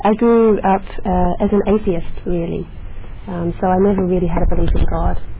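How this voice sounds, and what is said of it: Australian accent. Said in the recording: “I grew up in Australia, as you can maybe tell from the accent.”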